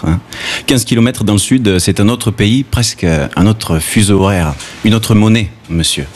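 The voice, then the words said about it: Southern French accent from Gard. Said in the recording (French): “je suis du Sud, j'ai l'accent du Sud ... ah mais toi tu as l'accent du Gard ... Quand je parle avec mon accent, à Marseille, on me prend pour un paysan”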